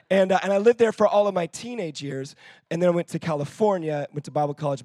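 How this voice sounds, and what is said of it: American accent. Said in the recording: “you can probably tell from my accent, I'm not even from the United Kingdom. I'm originally from Florida”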